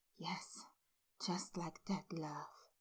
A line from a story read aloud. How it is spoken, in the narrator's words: Remus whispered